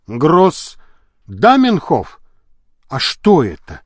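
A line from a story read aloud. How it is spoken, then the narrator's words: Plain. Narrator (Russian): спросил Енисеев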